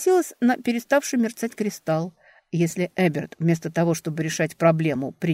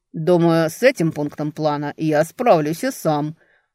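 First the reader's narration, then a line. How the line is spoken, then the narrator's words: Growl over phone. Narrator (Russian): рыкнули в трубке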